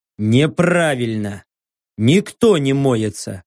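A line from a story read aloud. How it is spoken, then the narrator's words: Grumbling. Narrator (Russian): проворчал я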